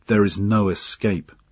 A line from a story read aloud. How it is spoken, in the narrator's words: he said